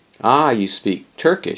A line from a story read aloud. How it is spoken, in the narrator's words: Saladin Bey cried